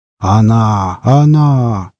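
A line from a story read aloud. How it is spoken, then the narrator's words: Deep bass, old man. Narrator (Russian): пробасил дед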